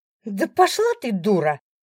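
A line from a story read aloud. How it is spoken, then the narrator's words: Shrieking. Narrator (Russian): взвизгивает Алиса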